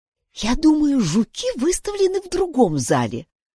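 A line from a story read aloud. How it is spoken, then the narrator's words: Whisper. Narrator (Russian): прошептала Юнис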